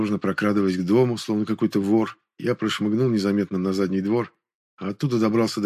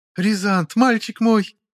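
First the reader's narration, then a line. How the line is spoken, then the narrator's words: Shrieking stepmother. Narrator (Russian): взвизгнула мачеха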